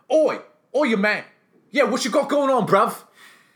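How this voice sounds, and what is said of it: Put-on South London working-class accent. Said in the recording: “a South London working man's accent”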